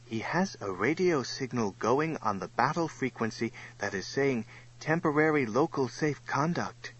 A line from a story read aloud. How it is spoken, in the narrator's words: Sir Robert's communicator, the boy named Kwong, whispered to Sir Robert